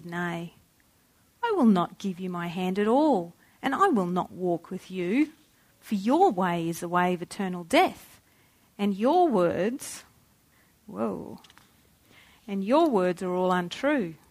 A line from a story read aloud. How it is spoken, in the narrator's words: solemnly answered